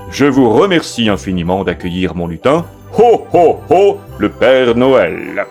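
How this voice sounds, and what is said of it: Santa Claus imitation voice. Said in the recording (French): “mon imitation du Père Noël est pas formidable, formidable”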